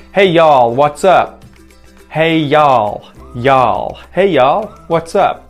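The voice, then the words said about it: Weak put-on American accent. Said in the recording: “if I can do an American accent ... I can't really do it.”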